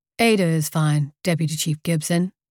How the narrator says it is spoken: I said

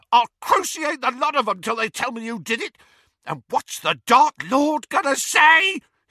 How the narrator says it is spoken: he shrieked

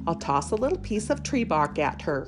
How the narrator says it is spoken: chuckled the bunny

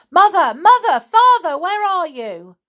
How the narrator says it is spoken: George shouting desperately

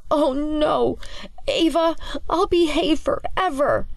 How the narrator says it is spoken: Clancy whimpers his objection to Ava's shenanigans as he struggles to keep the books held high

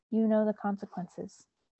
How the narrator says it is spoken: With a sigh, Mott shook his head and said to him

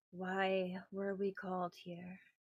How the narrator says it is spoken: she sighs and says

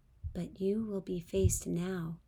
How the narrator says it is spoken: explained gently

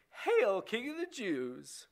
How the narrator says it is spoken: mocked him, saying

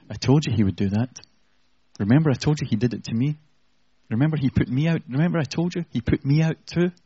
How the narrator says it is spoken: Satan whispering in his ear

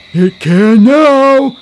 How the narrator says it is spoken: cried the styrofoam cup

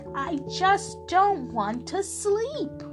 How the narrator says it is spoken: in a voice loud and deep, he bellowed right back

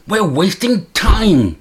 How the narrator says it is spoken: stamps impatiently

